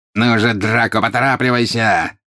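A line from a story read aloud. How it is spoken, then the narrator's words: Angry exclamation. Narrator (Russian): сердито воскликнул жестоколицый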